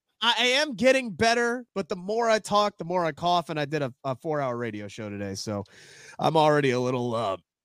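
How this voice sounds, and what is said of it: Hoarse voice. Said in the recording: “hoarse. ... A little hoarse.”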